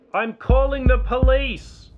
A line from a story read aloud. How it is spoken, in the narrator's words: declared loudly